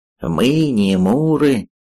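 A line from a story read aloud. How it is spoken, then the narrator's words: Nasal mocking imitation. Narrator (Russian): передразнил кого-то гнусаво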